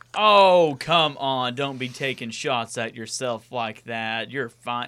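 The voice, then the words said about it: Rural backwoods Southern accent. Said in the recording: “my hick-ass voice... I'm coming on here sounding like I'm coming straight from the back of the holler.”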